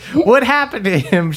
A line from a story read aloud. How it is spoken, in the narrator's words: She cries